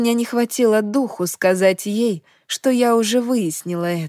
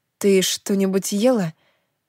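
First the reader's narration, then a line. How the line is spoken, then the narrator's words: Gentle question. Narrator (Russian): мягко спросила я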